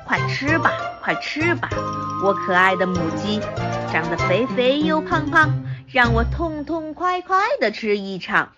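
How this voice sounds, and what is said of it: Quiet muttering chant. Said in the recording (Chinese): “小声念叨叨”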